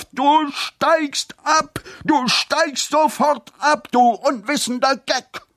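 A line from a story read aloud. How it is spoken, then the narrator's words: Sudden full-strength scream. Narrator (German): schrie Lobgott piepsam noch einmal aus voller Kraft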